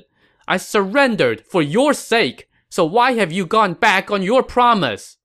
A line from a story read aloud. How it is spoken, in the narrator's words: Jiang Wei shouted